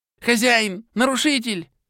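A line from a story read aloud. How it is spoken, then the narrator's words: Pleading squeak. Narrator (Russian): С просящими нотками пропищал Вилтрос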